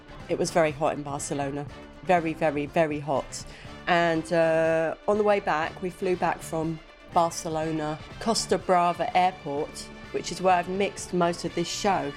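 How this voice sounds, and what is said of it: Voice sounds congested with a cold. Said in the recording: “You can probably tell from my voice ... I've caught a cold”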